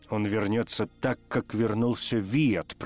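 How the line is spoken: Growl. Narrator (Russian): прорычал Тефу

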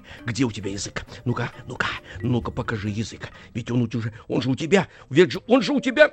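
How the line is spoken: Director's angry goose-like hiss. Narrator (Russian): режиссер набрасывался на него и шипел, как разгневанный гусак

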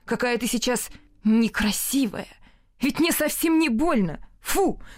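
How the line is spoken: Sudden shout. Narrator (Russian): закричал он вдруг

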